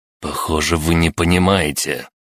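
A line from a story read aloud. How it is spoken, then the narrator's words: Hissing, growing angry. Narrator (Russian): начиная злиться, прошипел Питон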